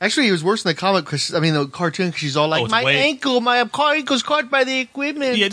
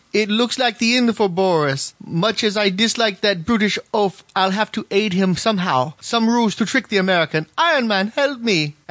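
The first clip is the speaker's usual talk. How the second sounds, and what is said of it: Vague mock Russian-European accent. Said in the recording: “do the accent ... I'll do the accent ... It's not even really a Russian accent. It's just this weird goulash of European-ish stuff.”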